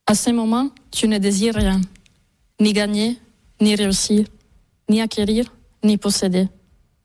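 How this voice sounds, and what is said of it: Non-local accent in French. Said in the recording (French): “on entend à votre accent que vous n'êtes pas totalement de la région”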